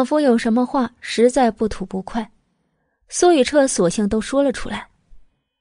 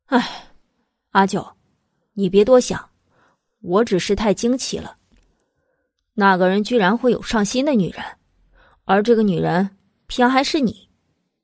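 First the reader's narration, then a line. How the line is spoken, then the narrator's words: Sighing. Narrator (Chinese): 苏雨彻叹了口气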